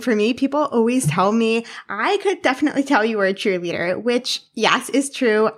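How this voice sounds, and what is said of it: High energy, upbeat voice. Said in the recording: “I'm definitely high energy. I'm sure you can already tell in my voice ... I'm high energy, upbeat”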